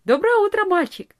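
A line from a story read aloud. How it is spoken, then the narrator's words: Cheerful. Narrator (Russian): весело сказала она ему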